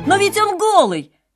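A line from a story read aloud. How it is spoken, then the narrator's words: Child's sudden exclamation. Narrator (Russian): воскликнул вдруг один ребенок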